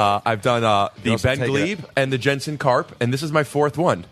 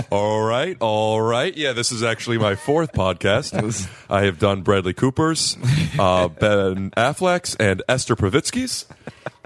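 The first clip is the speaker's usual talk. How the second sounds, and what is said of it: Put-on radio announcer voice. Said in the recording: “I got to get my radio voice.”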